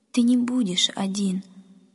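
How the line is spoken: Tearful mother comforting. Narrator (Russian): сквозь слезы утешала мама

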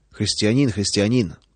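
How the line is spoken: Grumbling mutter. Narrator (Russian): пробурчал он

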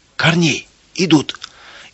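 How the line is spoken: Frightened shout. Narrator (Russian): испуганно закричал он

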